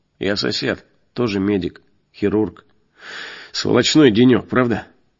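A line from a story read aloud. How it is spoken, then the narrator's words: Gloomy young man. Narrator (Russian): молодой врач мрачно сказал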